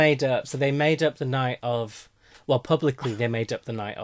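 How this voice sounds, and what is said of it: Usual voice. Nothing is said of it.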